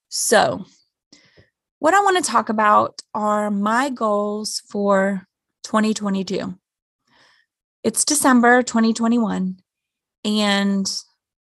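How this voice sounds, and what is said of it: Strained, worn-out voice. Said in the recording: “My voice is getting worse. I shouldn't be talking this much”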